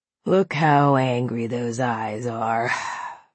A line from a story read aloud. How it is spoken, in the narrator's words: Arthur sighed